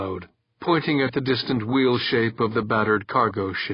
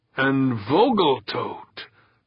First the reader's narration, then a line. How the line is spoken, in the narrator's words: Kirk snarled